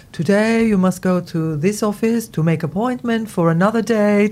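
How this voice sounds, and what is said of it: Put-on Spanish accent. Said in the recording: “That's my Spanish accent.”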